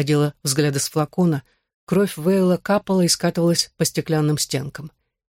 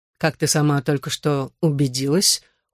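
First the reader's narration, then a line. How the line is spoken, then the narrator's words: Cold. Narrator (Russian): холодно сказал он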